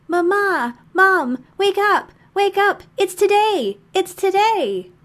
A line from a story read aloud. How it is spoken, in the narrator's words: They are yelling